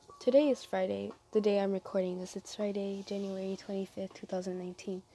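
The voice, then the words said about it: Sick voice, not soothing. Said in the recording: “I don't think it's soothing at the moment because of my sickness and coughing, and it's just bad.”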